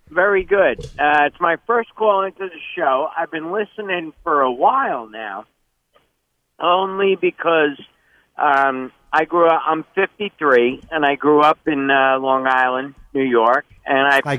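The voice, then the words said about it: Long Island New York accent. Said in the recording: “got that accent. I can hear that accent.”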